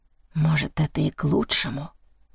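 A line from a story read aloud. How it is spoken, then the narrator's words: Whisper against glass. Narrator (Russian): прошептала она, и ее дыхание оставило на стекле мутный след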